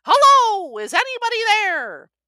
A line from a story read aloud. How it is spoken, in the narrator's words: I called out